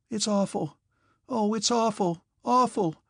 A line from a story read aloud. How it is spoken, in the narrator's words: Natasha suddenly cried and again burst into sobs